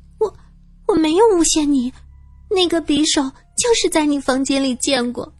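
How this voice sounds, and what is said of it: Speaking quietly, timid voice. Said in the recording (Chinese): “小声的说道”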